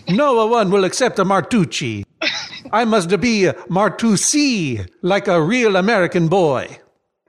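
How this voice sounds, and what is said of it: Impression of an Italian grandfather. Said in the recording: “Pretty uncanny, my impersonation of your Nonno”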